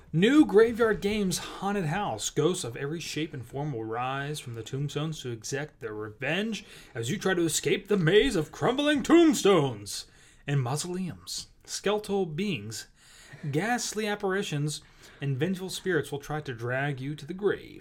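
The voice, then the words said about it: Announcer-style radio voice. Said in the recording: “trying to get my radio voice going ... winging all these voices”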